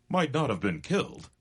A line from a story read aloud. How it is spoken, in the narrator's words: exclaimed the cowboy